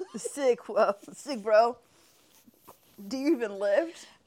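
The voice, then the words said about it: Mock California accent. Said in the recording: “we was making fun of the California accent”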